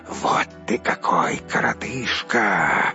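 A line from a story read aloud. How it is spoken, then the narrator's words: Hissing group. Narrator (Russian): зашипели они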